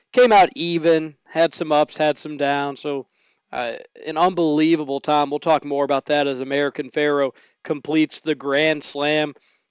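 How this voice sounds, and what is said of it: Hoarse voice. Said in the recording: “My voice is a little hoarse,”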